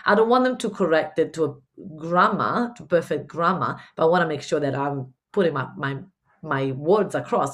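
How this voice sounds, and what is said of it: Italian-Spanish mixed accent. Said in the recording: “I'm Italian. I lived in Spain. I've got this weird mixed accent”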